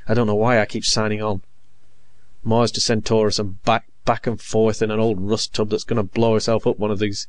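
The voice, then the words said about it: Murderous, menacing voice. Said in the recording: “in a murderous voice”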